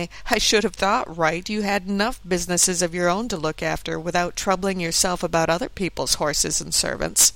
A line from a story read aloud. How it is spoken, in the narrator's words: who said laughingly